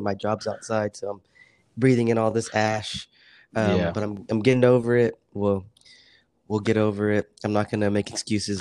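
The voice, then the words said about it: Unusually deep, sick-sounding voice. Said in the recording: “it's actually like making your voice deeper ... I got this deep voice ... a sore throat”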